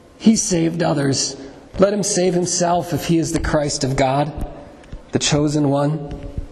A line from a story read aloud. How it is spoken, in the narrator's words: the rulers scoffed at him, saying